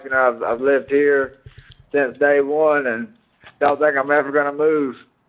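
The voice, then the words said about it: Thick Mississippi Southern accent. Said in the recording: “your accent is so thick. I mean, you're from Mississippi, right?”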